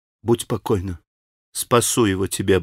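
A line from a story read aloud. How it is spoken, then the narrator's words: Quick whisper. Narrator (Russian): быстро прошептала Катя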